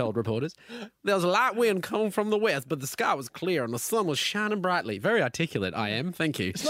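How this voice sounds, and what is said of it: Usual voice. Nothing is said of it.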